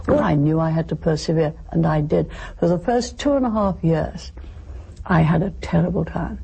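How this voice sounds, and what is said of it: Distinctive accent. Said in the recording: “Can you imagine ordering in a McDonald's drive-thru in that accent?”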